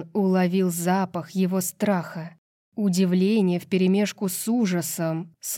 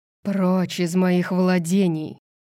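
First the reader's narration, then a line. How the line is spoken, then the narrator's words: Hissing. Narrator (Russian): прошипел король подземья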